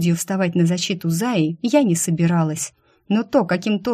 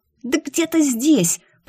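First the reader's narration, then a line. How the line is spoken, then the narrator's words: Angry hoarse rasp. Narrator (Russian): прохрипела я зло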